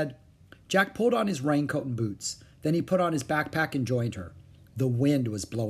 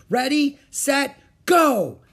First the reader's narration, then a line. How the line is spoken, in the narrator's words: shouted Annie